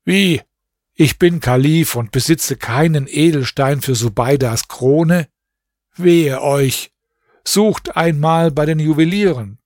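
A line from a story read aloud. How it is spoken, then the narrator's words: Dismayed exclamation. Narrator (German): dem Kalifen … rief er bestürzt aus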